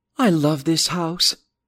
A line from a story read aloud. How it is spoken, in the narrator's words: Lisa sighed